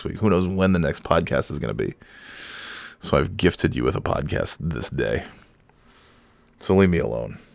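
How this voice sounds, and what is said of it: Rough, deep, sick-sounding voice. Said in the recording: “my voice wasn't a piece of garbage like it is right now ... I'm sick ... He sounds like Cookie Monster”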